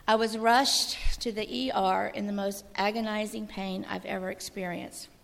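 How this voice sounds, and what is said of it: Hoarse, strained voice. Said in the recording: “sorry folks, I'm losing my voice.”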